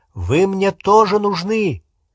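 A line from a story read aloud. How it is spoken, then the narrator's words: Shouted. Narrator (Russian): крикнул он Рону и Гермионе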